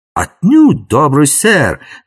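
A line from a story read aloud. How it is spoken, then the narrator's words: Exclaiming. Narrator (Russian): воскликнул принц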